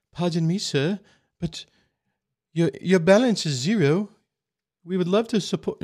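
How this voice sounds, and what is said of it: Vague put-on accent. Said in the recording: “I don't know what accent I'm trying to do”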